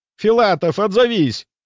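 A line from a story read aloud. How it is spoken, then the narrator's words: Shouted reply. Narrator (Russian): я прокричал в ответ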